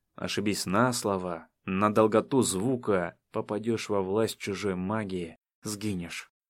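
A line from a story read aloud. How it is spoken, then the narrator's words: Obedient group whispering. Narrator (Russian): Остальные тоже послушно шептали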